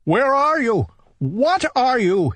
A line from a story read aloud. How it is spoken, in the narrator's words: he cried